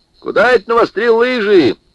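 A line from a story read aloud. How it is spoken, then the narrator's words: Abrupt shout. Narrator (Russian): сходу закричал он старику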